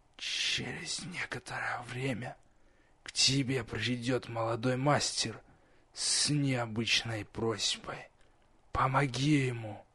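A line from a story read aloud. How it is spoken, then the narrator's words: Quiet, smirking. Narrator (Russian): усмехнулся, также негромко обронил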